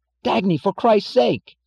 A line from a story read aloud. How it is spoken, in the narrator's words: cried James Taggart in panic